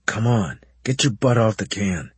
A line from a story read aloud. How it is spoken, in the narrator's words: he muttered harshly into my ear